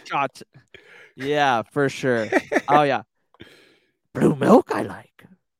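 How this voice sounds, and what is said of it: Terrible Yoda impression. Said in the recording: “my terrible Yoda impression”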